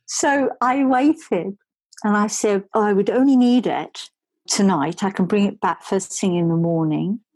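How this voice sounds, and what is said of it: Australian accent. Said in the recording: “the accent is not obviously a New Yorker ... I've come from Australia”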